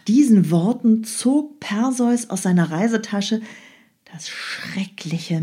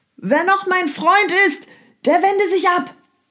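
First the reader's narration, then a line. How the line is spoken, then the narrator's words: Shouting over battle noise. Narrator (German): Er rief durch das Kampfgetümmel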